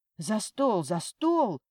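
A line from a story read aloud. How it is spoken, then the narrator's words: Exclaiming. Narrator (Russian): воскликнул отец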